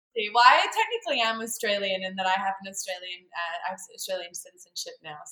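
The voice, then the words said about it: Australian accent. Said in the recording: “I definitely have an Australian accent though ... I thought you're Australian.”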